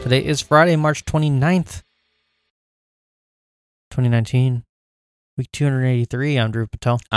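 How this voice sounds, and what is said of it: Mock public-radio announcer voice. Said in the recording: “Are you going to talk in that voice? ... That's my NPR voice.”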